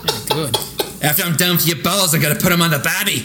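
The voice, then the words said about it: Put-on Australian accent, exaggerated. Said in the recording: “just nailing the Australian accent. ... sounds like a drunk guy at a Halloween party making fun of someone dressed like Crocodile Dundee.”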